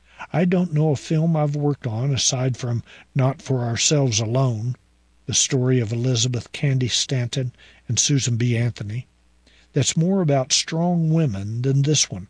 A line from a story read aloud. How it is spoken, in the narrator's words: Burns says